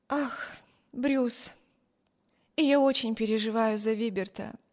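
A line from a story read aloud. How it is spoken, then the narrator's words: Sigh. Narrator (Russian): вздохнула Эми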